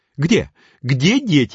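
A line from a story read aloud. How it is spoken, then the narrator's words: Exclaimed. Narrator (Russian): воскликнула миссис Адамс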